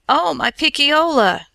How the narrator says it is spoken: cried

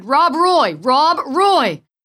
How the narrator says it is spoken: Futilely, the dog's master, shouted

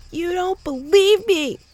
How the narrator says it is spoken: Mo shouted

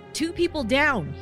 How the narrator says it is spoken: he shouted

